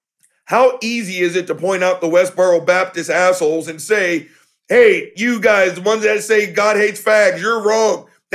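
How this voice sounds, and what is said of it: Raspy, angry voice. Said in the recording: “I'm raspy because I'm so mad.”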